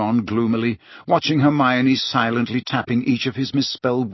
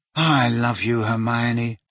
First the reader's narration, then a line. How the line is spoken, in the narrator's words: said Ron, rubbing his eyes wearily